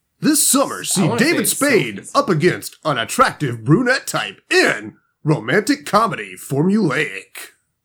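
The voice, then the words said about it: Dramatic 80s-90s movie trailer voice. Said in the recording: “That's my movie trailer voice. ... it's that 80s, 90s voice.”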